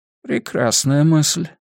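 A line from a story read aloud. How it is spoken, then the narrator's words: Quiet mutter. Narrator (Russian): тихо пробормотал Тански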